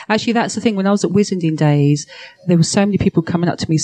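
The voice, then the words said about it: Speaks with a noticeable accent. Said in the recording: “Listen to your accent.”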